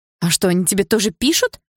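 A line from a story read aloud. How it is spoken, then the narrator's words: Exclamation. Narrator (Russian): воскликнула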